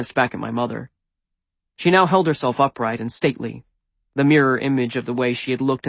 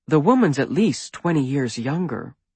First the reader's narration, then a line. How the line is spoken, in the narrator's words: my mother said